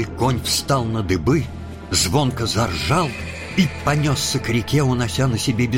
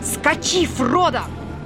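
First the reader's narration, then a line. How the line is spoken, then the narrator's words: Sudden tense shout. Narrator (Russian): Он весь напрягся и вдруг крикнул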